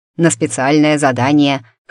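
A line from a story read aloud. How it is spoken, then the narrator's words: Snorting. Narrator (Russian): хмыкнул Барсов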